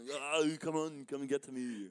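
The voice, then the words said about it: Imitates another person's voice. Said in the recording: “You do that voice.”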